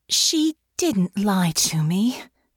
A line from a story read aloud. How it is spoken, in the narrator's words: Honor sighed